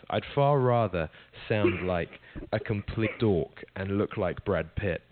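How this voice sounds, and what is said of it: British accent. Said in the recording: “we all go crazy for those British accents ... People do comment on my accent quite a lot”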